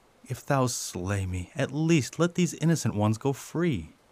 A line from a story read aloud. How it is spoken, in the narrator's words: with tears running down his face, Abdul knelt before the king and pleaded for his dear ones, saying